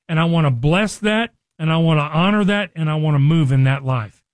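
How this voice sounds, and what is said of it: Excited, energetic speaking voice. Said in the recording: “hear the excitement in my voice”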